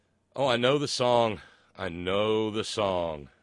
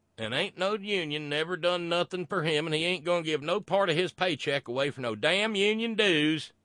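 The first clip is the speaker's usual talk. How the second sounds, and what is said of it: Put-on rural American heartland accent. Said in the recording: “a Republican in the heartland ... Sorry, wrong accent.”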